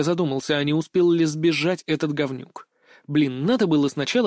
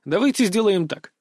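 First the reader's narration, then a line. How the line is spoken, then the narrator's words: Cheerful. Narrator (Russian): весело начал я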